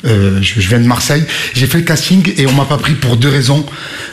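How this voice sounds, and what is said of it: Marseille French accent. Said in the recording (French): “j'avais l'accent marseillais”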